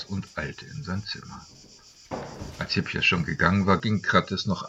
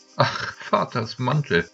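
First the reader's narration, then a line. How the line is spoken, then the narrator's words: Young woman laughing. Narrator (German): lachte die junge Frau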